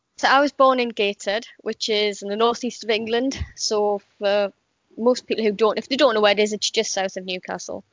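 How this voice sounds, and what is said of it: Slight British regional accent. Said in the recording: “I can pick up a bit of an accent, and I'm not very good at the British accents,”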